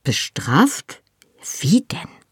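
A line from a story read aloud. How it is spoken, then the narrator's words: Very quiet hiss. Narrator (German): zischte ich, so leise ich konnte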